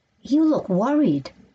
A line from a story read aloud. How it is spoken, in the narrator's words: said Carolyn